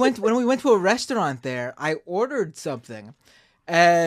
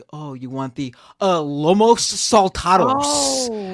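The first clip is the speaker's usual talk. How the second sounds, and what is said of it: Mocking Californian accent. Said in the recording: “he like mocked me, but using a Californian accent to mock me”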